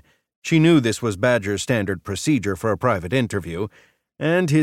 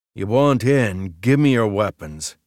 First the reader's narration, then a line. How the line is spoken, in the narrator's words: he growled